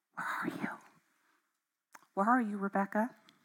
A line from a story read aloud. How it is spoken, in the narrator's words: gently say